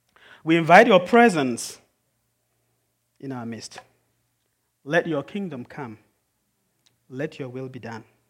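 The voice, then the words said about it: Foreign accent. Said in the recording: “as I speak with a foreign accent”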